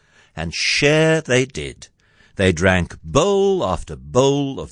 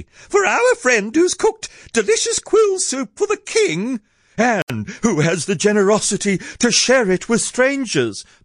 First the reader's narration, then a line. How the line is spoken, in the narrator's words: piped Aardvark